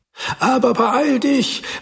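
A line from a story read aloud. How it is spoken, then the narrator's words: Wife calling after. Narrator (German): rief seine Frau ihm hinterher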